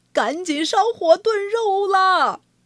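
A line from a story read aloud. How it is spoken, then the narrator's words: Shouting from outside. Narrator (Chinese): 农夫……还没进门就喊起来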